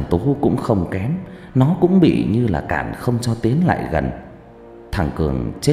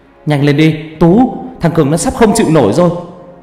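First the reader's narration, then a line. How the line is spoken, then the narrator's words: Loud shout. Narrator (Vietnamese): Thằng Dũng hét to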